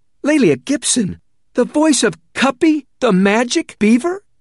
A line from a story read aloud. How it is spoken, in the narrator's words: His eyes widened further and he blurted out